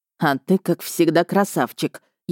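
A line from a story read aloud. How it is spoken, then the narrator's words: Near hiss. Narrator (Russian): едва не прошипел Рихард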